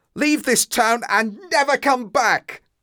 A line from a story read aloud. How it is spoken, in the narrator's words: I shouted